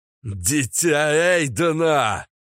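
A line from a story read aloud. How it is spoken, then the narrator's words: Roaring battle cry. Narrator (Russian): взревел я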